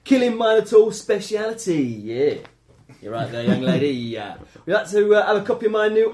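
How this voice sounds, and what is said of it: Cockney-accented character voice. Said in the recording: “do my Theseus voice ... a cockney Greek”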